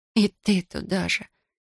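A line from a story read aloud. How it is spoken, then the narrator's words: Near moan. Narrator (Russian): Едва не застонала я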